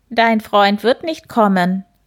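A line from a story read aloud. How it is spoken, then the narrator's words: Croaking voice. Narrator (German): krächzte eine Stimme hinter dem Hasen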